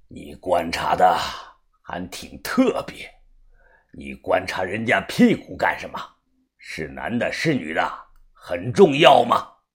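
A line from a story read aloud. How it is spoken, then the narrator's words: Angry. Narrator (Chinese): 把头怒声的说道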